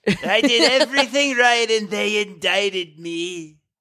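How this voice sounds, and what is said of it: Deep breathy Donald Trump impression. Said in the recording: “your Donald Trump impression ... I do more of like the deep or like the back, like breathy”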